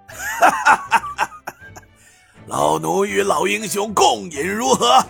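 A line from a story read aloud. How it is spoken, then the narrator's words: Hearty laughter. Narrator (Chinese): 东国雄哈哈笑道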